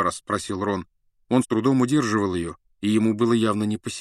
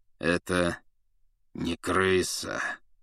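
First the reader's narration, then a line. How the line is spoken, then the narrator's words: Through gritted teeth. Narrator (Russian): процедил сквозь зубы Сириус Блэк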